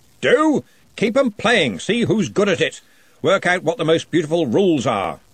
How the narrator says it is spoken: called out, heading out of the hall at speed

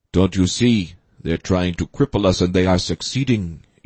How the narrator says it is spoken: Yamato told them in a quiet, reasonable voice

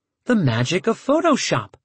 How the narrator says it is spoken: she said happily

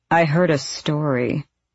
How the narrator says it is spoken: Adian drawled to Rowan

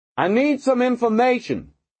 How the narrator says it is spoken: Pendergast shouted

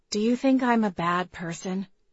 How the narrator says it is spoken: Celia asked quietly

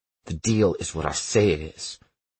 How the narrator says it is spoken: Jordan hisses

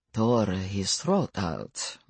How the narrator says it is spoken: murmured Stefan

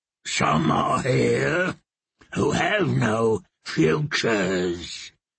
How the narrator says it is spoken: Maggie muttered in her terrible deep voice

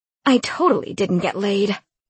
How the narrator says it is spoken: she exclaimed

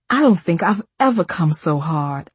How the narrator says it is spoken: I exclaimed

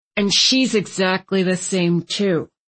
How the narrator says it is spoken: Landon muttered

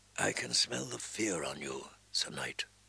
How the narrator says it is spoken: the Red Woman said softly

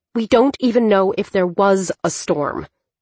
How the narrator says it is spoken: Dylan snapped

